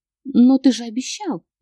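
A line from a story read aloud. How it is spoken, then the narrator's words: Strangled squeak. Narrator (Russian): Пискнула я задушенная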